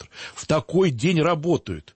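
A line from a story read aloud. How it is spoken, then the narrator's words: Near shout. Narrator (Russian): И он почти прокричал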